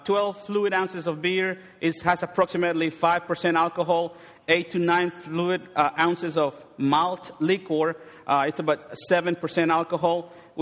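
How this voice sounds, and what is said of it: Strong non-native accent. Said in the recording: “my accent will get ahead of me, so you might not understand it”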